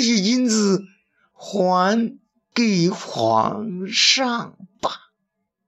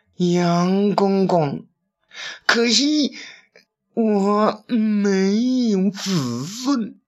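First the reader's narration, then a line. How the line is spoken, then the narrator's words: Helpless sigh. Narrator (Chinese): 郭舍人无奈的叹道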